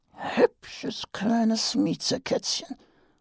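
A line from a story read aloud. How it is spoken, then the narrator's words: Quiet speech. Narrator (German): sagte Nobby leise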